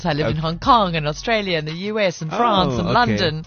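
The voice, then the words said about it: Mixed international European-sounding English accent. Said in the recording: “my accent's now weird ... such a chamorse of an accent ... your English accent is quite, you know, European.”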